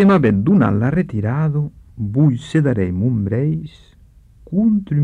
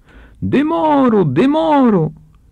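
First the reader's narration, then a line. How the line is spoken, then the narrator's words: Shouted from inside. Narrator (Catalan): crida el luxantre de din l'arco estant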